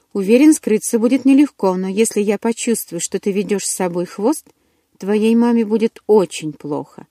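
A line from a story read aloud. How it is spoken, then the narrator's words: Cheerful promise. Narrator (Russian): радостно пообещал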